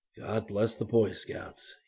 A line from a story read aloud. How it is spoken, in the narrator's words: murmured